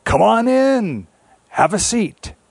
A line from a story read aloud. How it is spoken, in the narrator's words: Old man spider called out